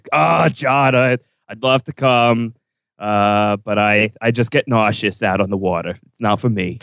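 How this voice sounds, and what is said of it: Put-on voice of a seasick character. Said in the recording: “That's my Ghost impression ... Seasick Ghost. That's my impression.”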